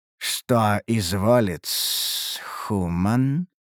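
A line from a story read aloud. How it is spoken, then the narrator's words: Creature's hiss. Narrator (Russian): прошипело существо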